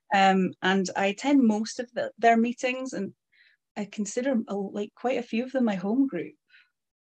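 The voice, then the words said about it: Shetland Islands accent. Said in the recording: “Shetland Islands ... As we can tell from the accent.”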